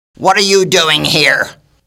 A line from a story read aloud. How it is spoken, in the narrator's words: a strong and fierce voice behind them yelled